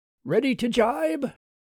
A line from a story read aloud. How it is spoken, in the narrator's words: He took a deep breath and called out